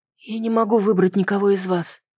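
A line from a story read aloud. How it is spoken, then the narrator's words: Quiet. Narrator (Russian): тихо сказала я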